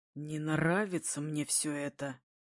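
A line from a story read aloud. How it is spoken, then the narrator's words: Through gritted teeth. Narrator (Russian): цедит сквозь зубы Булат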